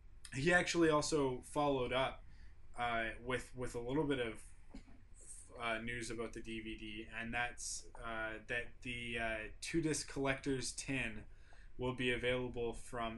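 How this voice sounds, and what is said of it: Canadian English accent. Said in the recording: “obviously I'm from Canada, not Australia. ... Can you tell by the accent?”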